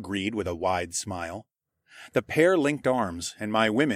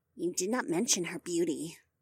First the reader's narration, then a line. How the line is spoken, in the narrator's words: Margaret huffed under her breath